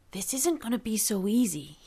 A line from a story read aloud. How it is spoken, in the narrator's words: he whispered